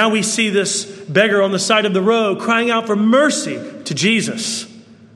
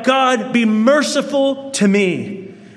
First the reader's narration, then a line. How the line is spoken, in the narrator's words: this tax collector who went into the temple and he cried out